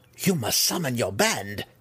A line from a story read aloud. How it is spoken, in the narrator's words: Malice cried at the mercenary